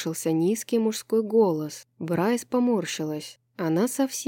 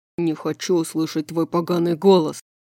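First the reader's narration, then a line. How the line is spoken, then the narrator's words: Growled. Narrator (Russian): прорычал Хант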